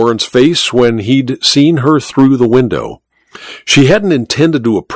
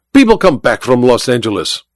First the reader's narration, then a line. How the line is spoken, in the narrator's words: Olga snapped